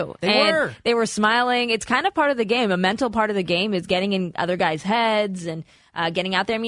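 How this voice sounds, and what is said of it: Usual voice. Nothing is said of it.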